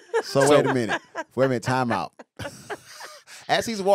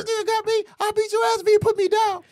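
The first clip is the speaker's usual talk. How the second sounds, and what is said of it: High-pitched imitation of another person. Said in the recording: “The high voice.”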